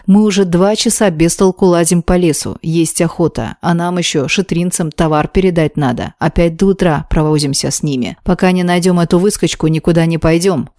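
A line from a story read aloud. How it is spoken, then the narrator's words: Firm deep leader's voice. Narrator (Russian): категорично пробасил, по всей видимости, главный среди них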